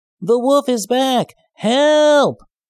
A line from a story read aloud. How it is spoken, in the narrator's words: yelled